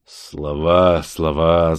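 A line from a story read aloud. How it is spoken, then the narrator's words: Mysterious purr. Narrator (Russian): загадочно промурлыкал чужой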